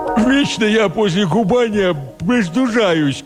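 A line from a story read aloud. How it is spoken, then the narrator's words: Nasal complaint. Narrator (Russian): гнусаво посетовала она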